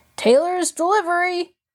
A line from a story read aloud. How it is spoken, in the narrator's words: the man had called out impatiently